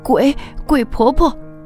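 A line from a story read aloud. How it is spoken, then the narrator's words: Screaming. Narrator (Chinese): 翠翠 大叫起来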